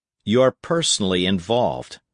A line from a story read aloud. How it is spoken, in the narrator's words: said Breckinridge coldly